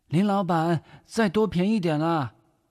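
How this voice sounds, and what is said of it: Southern Min accent. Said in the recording (Chinese): “也是闽南口音”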